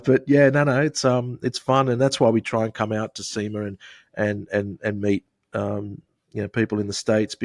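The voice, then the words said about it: Australian accent. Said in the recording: “I don't know if it translates with our accent in the States ... I think you can sort of hear from our accent. It's quite easy to follow. ... from Australia”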